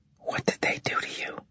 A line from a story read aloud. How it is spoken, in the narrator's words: She whispered